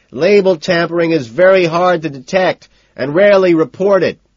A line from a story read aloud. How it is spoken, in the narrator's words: I shout over my shoulder